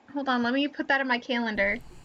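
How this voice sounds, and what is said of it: Michigan accent, dropped T's. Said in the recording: “so cute the way you said it ... your little Michigan accent that was coming out ... I drop all my T's ... There's no T in calendar”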